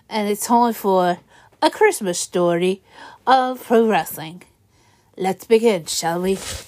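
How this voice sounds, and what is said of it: Crazy put-on accent. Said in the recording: “with a crazy accent”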